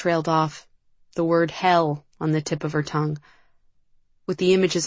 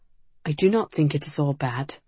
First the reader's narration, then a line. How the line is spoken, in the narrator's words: Cedric said softly